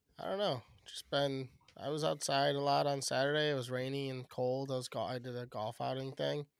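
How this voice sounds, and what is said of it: Hoarse, failing voice. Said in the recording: “my voice is going... right now, the last 30 minutes, I can't fucking talk”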